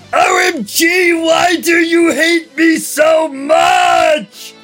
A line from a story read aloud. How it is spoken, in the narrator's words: I screamed